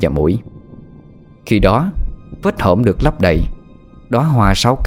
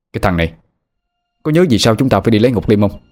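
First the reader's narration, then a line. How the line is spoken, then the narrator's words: Irritated snapping. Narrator (Vietnamese): Anh Hùng gắt lên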